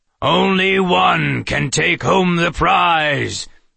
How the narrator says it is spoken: the face on the left door intoned

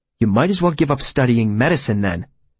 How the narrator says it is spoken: I said as gently as possible

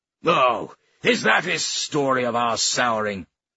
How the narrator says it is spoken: Taru snorted

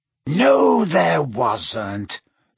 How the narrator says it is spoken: said Snape in a bored voice

